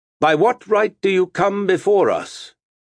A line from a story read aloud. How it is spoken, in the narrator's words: Martin spoke in a clear, strong voice